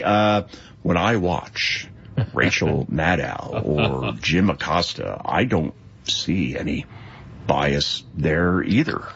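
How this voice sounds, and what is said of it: Slow, pompous Scott Pelley impression. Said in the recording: “that is a good impression... I've slowed it up, so I think it's better... It's gotta be very slow... Very pompous... That is good”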